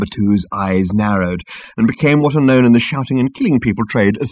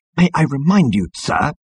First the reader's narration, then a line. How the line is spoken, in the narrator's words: hissed Number Two at the captain